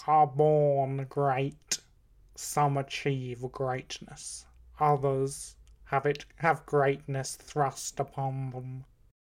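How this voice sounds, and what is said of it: Bad Snape character voice impression. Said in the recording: “It sounds like a really bad Snape impression. ... It's Alan Rickman!”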